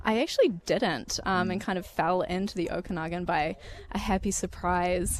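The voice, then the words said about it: New Zealand accent. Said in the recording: “You got a strange accent, too. You actually weren't born in Canada. ... I am originally from New Zealand.”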